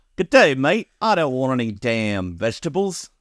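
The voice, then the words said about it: Put-on Australian accent. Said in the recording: “now in an Australian accent.”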